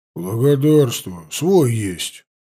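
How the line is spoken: Grumble. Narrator (Russian): буркнул кудряш

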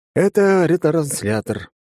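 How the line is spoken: Sighed. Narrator (Russian): вздохнул я

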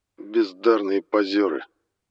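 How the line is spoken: Disdainful drawl. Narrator (Russian): пренебрежительно процедил Лой

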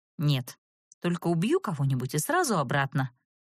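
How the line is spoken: Dry. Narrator (Russian): сухо пообещала я

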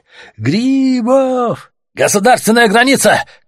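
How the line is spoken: Shouted. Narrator (Russian): крикнули им

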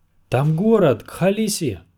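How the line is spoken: Group shouting. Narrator (Russian): кричали они

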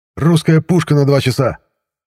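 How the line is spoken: Shouted out. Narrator (Russian): выкрикнул Курт

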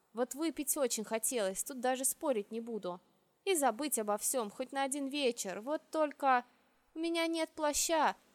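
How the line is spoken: Sad admission. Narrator (Russian): грустно призналась я

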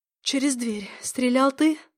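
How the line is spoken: Hoarse, tired, bitter voice. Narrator (Russian): проговорила я охрипшим от усталости и горечи голосом

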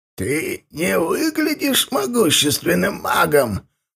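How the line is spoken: Creaky reply. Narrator (Russian): проскрипел тот в ответ

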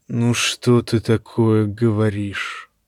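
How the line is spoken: Sigh. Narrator (Russian): вздохнул лорд-отец

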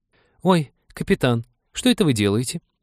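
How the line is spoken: Squeaked. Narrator (Russian): пискнула мисс Отвертка

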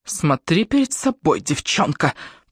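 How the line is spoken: Growl. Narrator (Russian): прорычала она

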